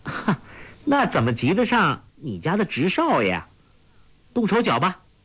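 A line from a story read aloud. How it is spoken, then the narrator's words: Laughing. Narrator (Chinese): 黄蓉笑道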